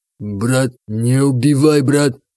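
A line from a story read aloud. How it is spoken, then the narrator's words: Strained, frightened plea. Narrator (Russian): Выдавил кавказец, не понимая, что происходит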